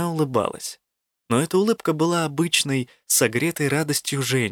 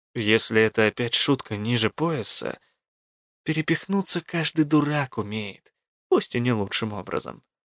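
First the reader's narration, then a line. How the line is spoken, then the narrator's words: Lazy, dismissive. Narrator (Russian): лениво отмахнулась Элла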